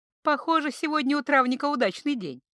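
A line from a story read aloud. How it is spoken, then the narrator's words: Chuckling. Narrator (Russian): хохотнула она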